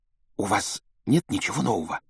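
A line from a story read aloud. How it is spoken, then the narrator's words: Secretive whisper. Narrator (Russian): добавила она шепотом, чтобы не услышала мадам Помфри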